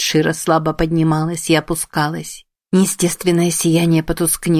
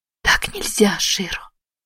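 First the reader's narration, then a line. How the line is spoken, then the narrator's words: Breathy exhale. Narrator (Russian): выдохнула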